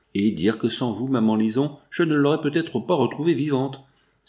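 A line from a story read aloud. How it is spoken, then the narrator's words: Exclaiming. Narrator (French): s'écria Lucien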